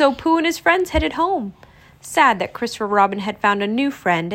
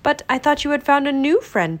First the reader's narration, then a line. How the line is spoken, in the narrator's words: Pooh said